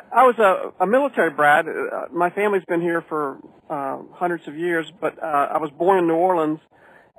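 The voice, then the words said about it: Slight Carolina Southern accent. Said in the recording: “You got a bit of a Carolina accent, I think.”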